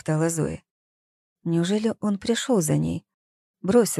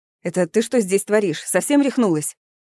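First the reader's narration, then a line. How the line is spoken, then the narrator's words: Sharp scolding shout. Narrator (Russian): прикрикнул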